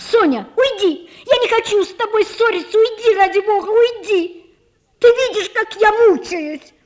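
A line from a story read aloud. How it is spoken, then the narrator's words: Angry, desperate, restrained shouting. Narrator (Russian): злобно кричала Наташа, сдержанным, раздраженным и отчаянным голосом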